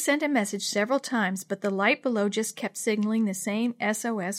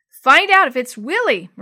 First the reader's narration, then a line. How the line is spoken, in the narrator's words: Maria cried